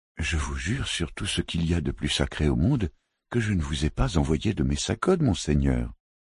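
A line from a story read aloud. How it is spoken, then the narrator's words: Calm reply. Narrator (French): répondit calmement Dame Sibrit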